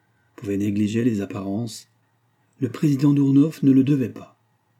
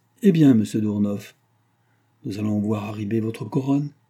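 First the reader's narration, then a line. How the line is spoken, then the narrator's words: Kindly tone. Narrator (French): dit d'un ton bienveillant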